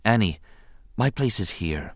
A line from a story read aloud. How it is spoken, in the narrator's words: she said quietly